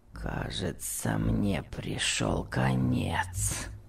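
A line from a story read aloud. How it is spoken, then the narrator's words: Moaning. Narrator (Russian): простонал Том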